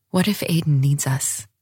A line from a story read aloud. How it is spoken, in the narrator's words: I asked softly